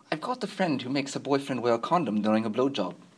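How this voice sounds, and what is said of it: Horrible put-on English accent. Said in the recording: “in my horrible, horrible English accent”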